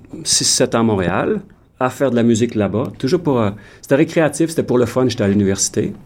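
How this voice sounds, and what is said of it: Québécois French accent. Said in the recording (French): “l'accent de ... J'imagine que tu viens du Québec”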